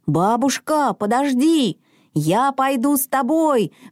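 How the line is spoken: Sudden shout. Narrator (Russian): вдруг крикнул Мортен

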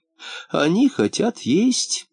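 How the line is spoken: Old woman's sigh. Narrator (Russian): вздохнула старушка

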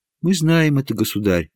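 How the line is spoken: Respectful. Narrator (Russian): почтительно сказала принцесса Елизавета

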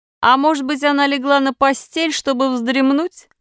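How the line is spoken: Laughing harder. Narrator (Russian): прибавил другой, смеясь еще больше

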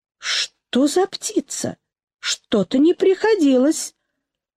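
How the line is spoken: Uncertain dog. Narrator (Russian): как-то неуверенно, а это означало, что он говорит присутствующим

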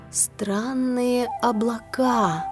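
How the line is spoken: Thoughtful drawl. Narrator (Russian): задумчиво протянула

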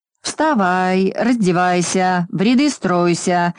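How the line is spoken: Deafening nasal roar. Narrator (Russian): оглушительно ревел чей-то противный гнусавый голос

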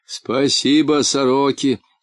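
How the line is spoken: Laughing. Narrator (Russian): засмеялся полботинка

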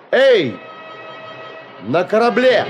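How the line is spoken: Loud call. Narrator (Russian): громко сказал

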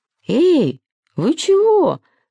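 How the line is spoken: Shouting. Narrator (Russian): закричал Сережик

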